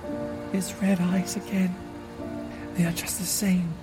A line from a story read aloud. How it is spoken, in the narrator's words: suddenly Lucy murmured as if to herself